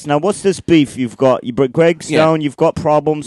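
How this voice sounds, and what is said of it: Put-on British accent. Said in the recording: “You better keep the British accent ... It's very good ... you're very good at it ... It's a different British guy.”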